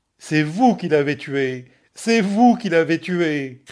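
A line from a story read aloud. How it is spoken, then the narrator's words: Shout. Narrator (French): cria-t-elle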